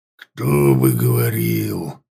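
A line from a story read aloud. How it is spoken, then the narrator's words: Growl. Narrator (Russian): Каунель зарычала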